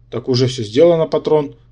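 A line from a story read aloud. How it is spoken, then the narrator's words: Snorting. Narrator (Russian): хмыкнул Рабан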